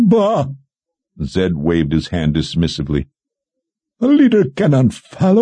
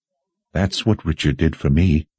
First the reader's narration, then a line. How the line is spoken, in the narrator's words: Warren said in a soft voice